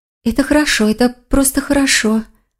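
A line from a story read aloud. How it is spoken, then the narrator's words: Whisper. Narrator (Russian): прошептала лиса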